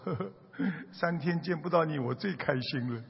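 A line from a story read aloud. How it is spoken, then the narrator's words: Grinning. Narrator (Chinese): 他还笑嘻嘻的说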